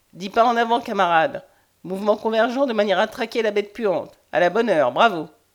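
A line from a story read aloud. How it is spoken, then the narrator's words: Sneering laugh. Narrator (French): Ellenbrock ricanait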